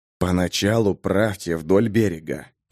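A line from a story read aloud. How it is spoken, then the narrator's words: Whispered command. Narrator (Russian): шепотом приказал Джимис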